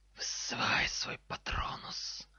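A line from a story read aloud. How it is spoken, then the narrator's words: Hissing snake. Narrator (Russian): прошипела змея на полу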